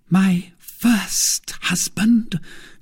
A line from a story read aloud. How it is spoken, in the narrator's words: cried, with eyes almost starting from their sockets